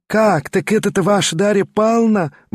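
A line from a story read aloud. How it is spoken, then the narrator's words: Exclamation. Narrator (Russian): воскликнула Марья Тимофеевна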